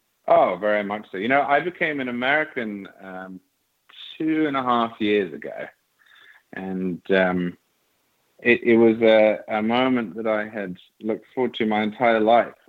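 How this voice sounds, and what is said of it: English accent, not American. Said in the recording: “People can pick up on your accent and know that's not an American accent. You were born in England”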